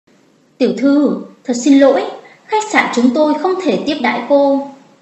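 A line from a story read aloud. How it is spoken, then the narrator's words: Apologetic, nervous. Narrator (Vietnamese): nhân viên phục vụ của khách sạn, vẻ mặt còn áy náy, còn có sợ hãi, thư giãn nói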